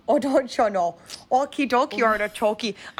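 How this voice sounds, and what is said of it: Put-on Midwest accent. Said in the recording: “I was gonna try my Midwest accent, but I don't know how”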